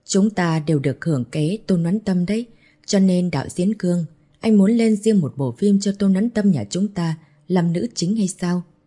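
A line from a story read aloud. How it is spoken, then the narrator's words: Laughing while speaking. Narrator (Vietnamese): Bạch Kỳ Dương bật cười nói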